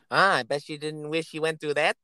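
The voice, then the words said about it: Bugs Bunny cartoon voice impression. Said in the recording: “do a Bugs impression ... let's hear your Bugs”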